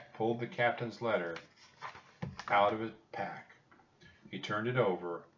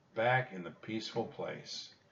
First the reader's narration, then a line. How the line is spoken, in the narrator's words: said Annie, sighing